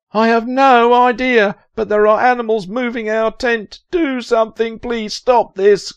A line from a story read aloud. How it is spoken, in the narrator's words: Kerry yelled